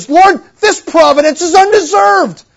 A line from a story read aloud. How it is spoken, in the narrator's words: pleads